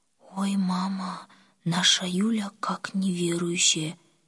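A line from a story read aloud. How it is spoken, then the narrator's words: Quiet. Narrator (Russian): тихо сказала Оля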